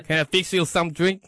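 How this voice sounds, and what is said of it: Put-on Southern US accent. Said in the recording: “down south, they got really strong accent ... That was pretty good.”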